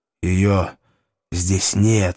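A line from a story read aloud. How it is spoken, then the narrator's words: Hoarse. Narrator (Russian): хрипло сказал Вальтер Гаснер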